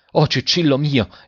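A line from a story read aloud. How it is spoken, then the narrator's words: Father exclaiming. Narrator (Italian): esclamò il padre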